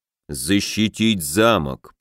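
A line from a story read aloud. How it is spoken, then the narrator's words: Drawling. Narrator (Russian): протянул богатырь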